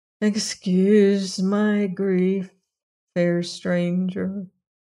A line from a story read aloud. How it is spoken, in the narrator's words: he said in a sad voice